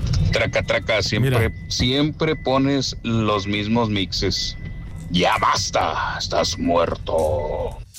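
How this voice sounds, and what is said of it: Put-on radio announcer voice. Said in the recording (Spanish): “quiere hacer voz de locutor”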